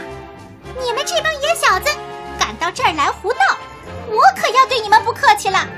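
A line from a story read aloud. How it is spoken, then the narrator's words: Shouting. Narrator (Chinese): 喊话的竟然是七弟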